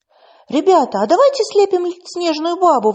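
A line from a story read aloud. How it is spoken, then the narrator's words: Girl's excited exclamation. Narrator (Russian): воскликнула девочка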